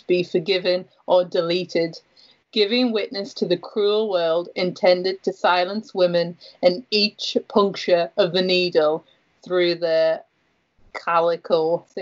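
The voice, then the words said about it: Geordie accent. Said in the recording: “I love being read to in a Geordie accent.”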